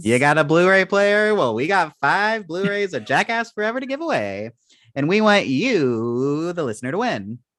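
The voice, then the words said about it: Game show host voice. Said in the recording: “A game show voice?”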